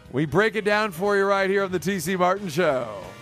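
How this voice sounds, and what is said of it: Game show host voice. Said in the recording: “I went with a kind of a game show voice there.”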